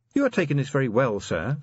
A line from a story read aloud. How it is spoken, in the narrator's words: said Angua